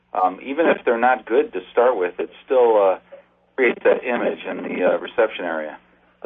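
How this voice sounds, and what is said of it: Chicago Italian accent. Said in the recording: “That sounds like a Chicago Italian accent”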